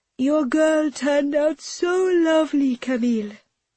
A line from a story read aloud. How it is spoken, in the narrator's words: Hannah says through a yawn